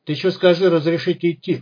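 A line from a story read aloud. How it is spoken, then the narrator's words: Chuckling. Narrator (Russian): хохотнул второй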